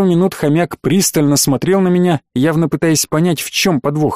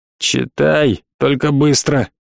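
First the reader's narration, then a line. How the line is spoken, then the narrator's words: Displeased storekeeper grumbling. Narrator (Russian): недовольно проворчал кладовщик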